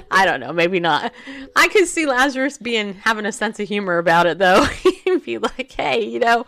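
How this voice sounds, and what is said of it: Usual voice. Nothing is said of it.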